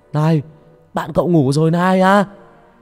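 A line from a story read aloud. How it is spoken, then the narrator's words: Shouting. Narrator (Vietnamese): Ông Sân hét lên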